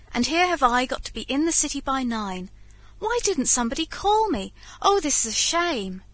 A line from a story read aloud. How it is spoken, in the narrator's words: exclaimed George